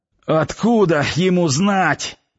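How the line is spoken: Hoarse after clearing throat. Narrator (Russian): прохрипел откашлявшийся Ярчук

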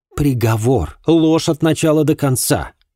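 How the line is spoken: Indignant exclamation. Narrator (Russian): с негодованием воскликнула Ма

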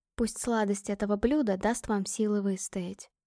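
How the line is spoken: Whisper. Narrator (Russian): прошептала

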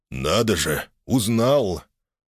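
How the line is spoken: Bright, kind laughter. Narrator (Russian): Гугот захохотал, ярко и по-доброму

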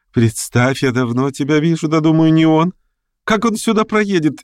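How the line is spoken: Cheerful laughter. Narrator (Russian): весело рассмеялась

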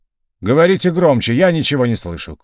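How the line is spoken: Loud shout, deafened. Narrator (Russian): крикнул Потресов, оглохший от стрельбы и криков

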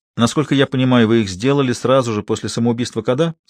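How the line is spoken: Plain. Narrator (Russian): спросил декан

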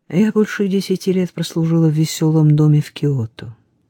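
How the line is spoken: Sighing. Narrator (Russian): И, вздохнув, прибавила

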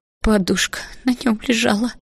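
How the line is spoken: Maid sobbing. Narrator (Russian): всхлипывала горничная

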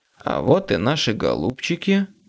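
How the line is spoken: Plain. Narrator (Russian): сказал я

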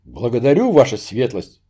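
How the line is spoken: Wavering voice. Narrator (Russian): дрогнувшим голосом произнес Багратион

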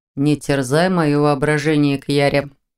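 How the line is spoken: Grumbling. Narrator (Russian): проворчал Виктор

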